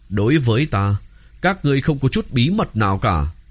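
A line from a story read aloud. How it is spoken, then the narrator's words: Smiling. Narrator (Vietnamese): Gã mỉm cười nói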